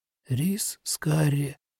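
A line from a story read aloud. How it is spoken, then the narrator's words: Barely audible murmur. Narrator (Russian): чуть слышно промолвил Нобуо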